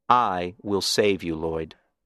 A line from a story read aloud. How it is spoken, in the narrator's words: calmly said